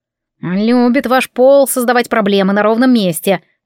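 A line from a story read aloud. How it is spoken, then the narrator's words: Grumbling. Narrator (Russian): проворчал Грифс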